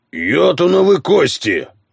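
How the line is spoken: Barked. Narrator (Russian): рявкнул Тен

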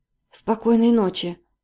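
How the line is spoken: Choked mutter. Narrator (Russian): сдавленным голосом пробормотала Полина

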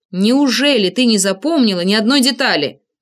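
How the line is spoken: Irritated cry. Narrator (Russian): раздраженно вскрикнул я

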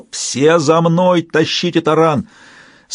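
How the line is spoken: Yell. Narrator (Russian): Брэшен заорал

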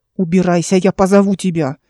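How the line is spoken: Barked. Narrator (Russian): рявкнула Вердана

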